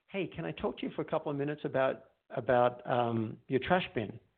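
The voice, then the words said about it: Open, calm, non-angry tone. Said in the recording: “You can hear that I'm open. I'm not angry. Uh, there's something in the tone.”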